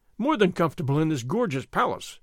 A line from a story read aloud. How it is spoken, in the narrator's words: Don Carlos exclaimed